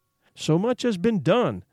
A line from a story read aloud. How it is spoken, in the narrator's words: exclaimed the soul of Frankenstein